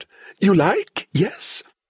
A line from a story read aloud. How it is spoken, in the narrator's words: cackling happily